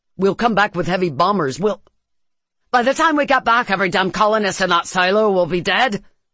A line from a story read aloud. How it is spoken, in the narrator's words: she shouted